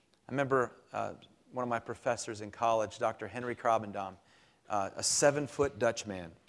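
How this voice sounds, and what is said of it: Usual voice. Nothing is said of it.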